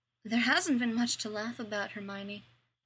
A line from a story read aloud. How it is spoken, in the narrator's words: Harry Potter sighed